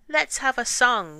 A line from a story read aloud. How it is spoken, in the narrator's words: one of the men called out to him